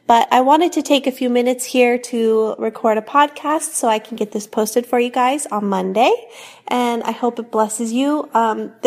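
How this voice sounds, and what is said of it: Raspy voice from a cold. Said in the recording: “I am also still getting over a cold, so I apologize for my kind of weird raspy voice”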